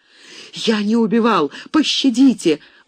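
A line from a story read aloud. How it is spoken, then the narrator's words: Terrified sobbing. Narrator (Russian): в ужасе рыдал лейтенант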